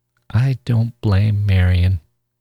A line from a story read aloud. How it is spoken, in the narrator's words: Charlie said slowly